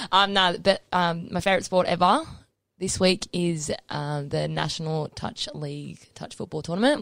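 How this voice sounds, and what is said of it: Speaking quietly. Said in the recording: “saying this quietly”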